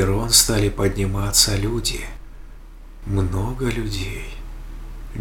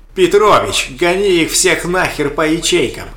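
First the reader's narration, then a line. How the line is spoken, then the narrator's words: Distant yelling. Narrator (Russian): Завопили откуда-то в коридоре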